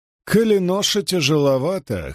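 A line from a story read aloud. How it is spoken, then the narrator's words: Hoarse laughter. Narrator (Russian): хрипло рассмеялся Льюстерин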